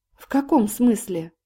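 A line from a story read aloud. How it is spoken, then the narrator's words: Sighing confession. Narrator (Russian): Ковальский вздохнул и признался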